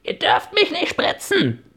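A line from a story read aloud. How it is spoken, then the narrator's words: Screaming. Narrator (German): schrie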